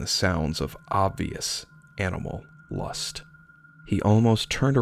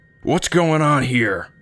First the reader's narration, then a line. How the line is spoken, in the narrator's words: Demetrius yelled, his face the shade of the reddest rose